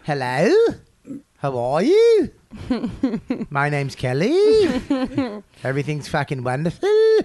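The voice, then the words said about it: Mock Australian accent, rising inflection. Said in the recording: “The Australian accent, everything's up on the end ... Up inflection, yeah ... It's up on the...”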